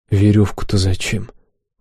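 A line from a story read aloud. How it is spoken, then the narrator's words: Weary question. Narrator (Russian): устало поинтересовался я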